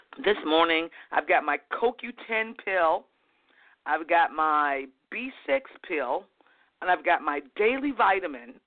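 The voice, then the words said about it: Hoarse, croaky voice. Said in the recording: “I sound like a frog”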